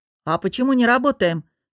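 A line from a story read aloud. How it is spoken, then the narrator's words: Grumbling, suppressing a smile. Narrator (Russian): с трудом сдерживая улыбку, проворчала я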